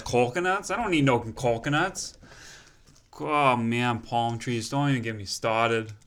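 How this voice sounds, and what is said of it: Boston accent drifting into Minnesotan. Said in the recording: “your accent went like... It started... Don't even get me started. It started Boston, and then it went straight to Minnesota... Straight to Minnesotan.”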